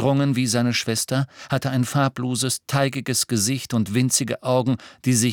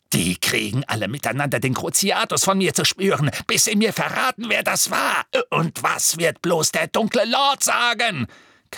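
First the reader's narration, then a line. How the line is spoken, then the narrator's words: Shrieking. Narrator (German): kreischte er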